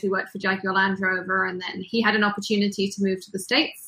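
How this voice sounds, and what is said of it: English accent. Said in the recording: “Where's the accent from? Because the accent is super awesome. ... we grew up in England”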